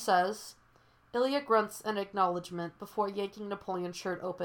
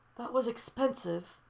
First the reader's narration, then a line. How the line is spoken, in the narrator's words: Solo gasps